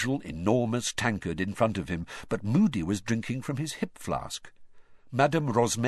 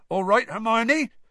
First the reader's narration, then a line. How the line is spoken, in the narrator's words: said Hagrid loudly